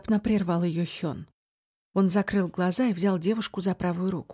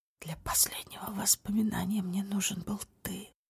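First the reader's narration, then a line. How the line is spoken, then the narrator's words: Whispered. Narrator (Russian): прошептал Хён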